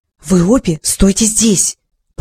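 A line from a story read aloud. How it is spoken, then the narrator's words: Whispering. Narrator (Russian): прошептала она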